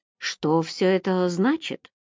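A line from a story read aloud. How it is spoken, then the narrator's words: Uncertain question, judge. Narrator (Russian): неуверенно осведомился судья МакКью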